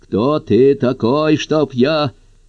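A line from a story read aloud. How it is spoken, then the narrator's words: Snarling. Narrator (Russian): Она зарычала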